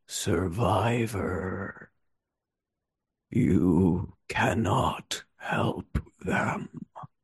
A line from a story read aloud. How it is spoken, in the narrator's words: his voice whispers in your ear every so often and says